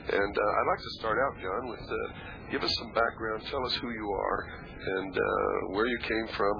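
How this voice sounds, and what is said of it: Voice in poor condition. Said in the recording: “As you can hear, my voice is not too good”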